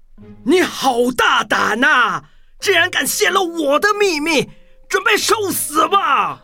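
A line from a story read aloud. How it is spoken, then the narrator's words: Furious roar. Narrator (Chinese): 他非常生气，对着波比大吼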